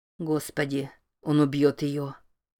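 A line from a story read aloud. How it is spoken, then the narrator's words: Muttered. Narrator (Russian): пробормотал Билл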